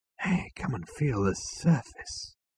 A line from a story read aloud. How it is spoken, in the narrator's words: he said in a hushed voice